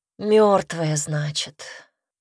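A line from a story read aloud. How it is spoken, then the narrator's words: Heavy sigh, young woman. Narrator (Russian): тяжело вздохнула девушка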